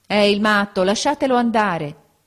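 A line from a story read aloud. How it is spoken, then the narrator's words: Several voices exclaiming. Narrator (Italian): esclamarono alcuni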